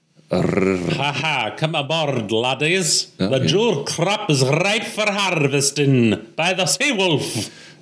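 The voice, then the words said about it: Over-enunciated put-on Scottish accent. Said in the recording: “Do you dare attempt a Scottish accent? ... There's a lot of enunciation going on there. The Scottish accent does sound something like that, but it's faster.”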